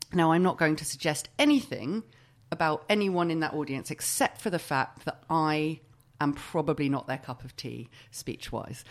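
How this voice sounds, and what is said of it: Middle-class accent. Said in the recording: “I'm very middle class. I've got this accent,”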